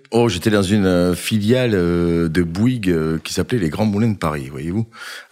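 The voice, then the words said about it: Southern French Montpellier accent. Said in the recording (French): “vous étiez à Montpellier, d'où un accent sympa”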